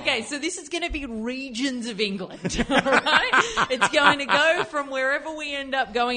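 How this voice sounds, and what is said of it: Put-on English accent, quite good. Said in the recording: “I'm in an English accent ... That's actually a very good accent.”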